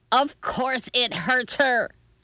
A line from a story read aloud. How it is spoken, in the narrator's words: yelled Grandma